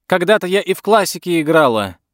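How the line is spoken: Shouted after them. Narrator (Russian): крикнула им вдогонку миссис Бентли

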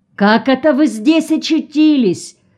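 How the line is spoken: Surprised distant shout. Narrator (Russian): С искренним удивлением прокричал он еще издали

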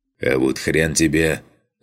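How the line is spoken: Growling. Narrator (Russian): зарычал Коля

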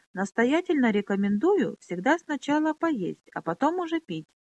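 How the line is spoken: Very courteous tone. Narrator (Russian): самым любезным тоном произнес мастер-орфист

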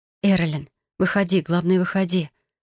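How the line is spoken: Whispered. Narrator (Russian): прошептала я

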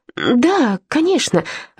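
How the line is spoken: Laughing reply. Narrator (Russian): ответила я, засмеявшись

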